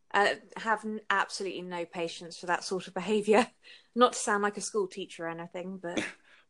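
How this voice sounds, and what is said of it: Noticeable accent. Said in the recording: “with your accent, it's hard to not to ... You have a great accent”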